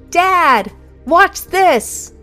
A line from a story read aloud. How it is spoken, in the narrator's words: called out